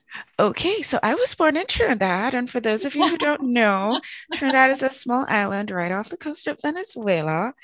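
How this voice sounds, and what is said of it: Trinidadian accent. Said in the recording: “I suspect we have a similar accent. ... I am from Trinidad.”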